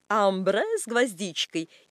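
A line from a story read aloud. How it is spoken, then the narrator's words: Plain. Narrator (Russian): говорит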